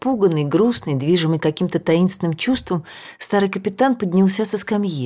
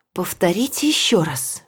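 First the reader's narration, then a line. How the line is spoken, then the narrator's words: Whispered. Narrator (Russian): прошептал он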